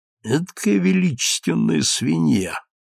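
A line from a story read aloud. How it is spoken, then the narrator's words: Whispered in ear. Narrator (Russian): прошептал я на ухо доктору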